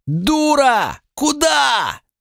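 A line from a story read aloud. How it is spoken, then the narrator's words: Yelling. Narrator (Russian): заорал Сулинов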